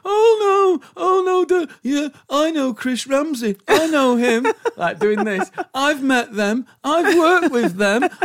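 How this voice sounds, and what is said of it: Impression of an anxious dad's voice. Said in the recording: “did an impression of me impromptu... it was so accurate... It was frighteningly good... she did the voice”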